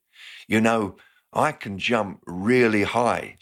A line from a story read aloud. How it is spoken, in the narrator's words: she said